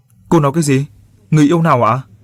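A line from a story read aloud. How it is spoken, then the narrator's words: Shouting. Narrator (Vietnamese): hét lên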